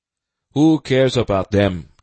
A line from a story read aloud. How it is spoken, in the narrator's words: Namuri asked, crossly